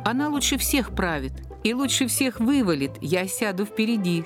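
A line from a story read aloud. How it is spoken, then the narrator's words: Laughing. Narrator (Russian): смеялся Пушкин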